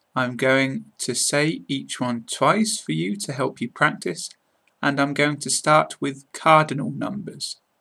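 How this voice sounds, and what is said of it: British English accent. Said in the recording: “my British accent”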